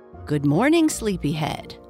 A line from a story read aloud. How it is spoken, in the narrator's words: Bluebell said